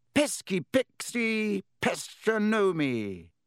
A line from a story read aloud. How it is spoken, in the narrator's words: He bellowed